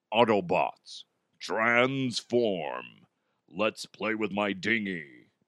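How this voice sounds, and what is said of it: Deep Optimus Prime character voice. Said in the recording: “my voice is a little bit deeper ... I can do different voices now. One of which being Optimus Prime.”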